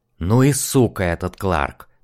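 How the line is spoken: Hissed. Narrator (Russian): прошипел он

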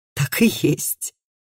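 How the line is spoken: Mumbling while laughing. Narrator (Russian): пробормотал Матиас, смеясь

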